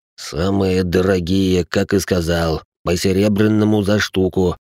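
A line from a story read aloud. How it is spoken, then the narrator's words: Through gritted teeth. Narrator (Russian): сквозь зубы выдал бывший вояка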